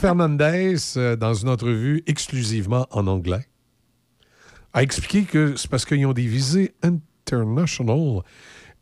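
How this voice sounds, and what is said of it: Québécois French accent. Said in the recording (French): “on parle tout comme ça au Québec. On, a tous des... accents couchés dehors ... t'es un Québécois ... moi je suis Québécois, je, mon accent”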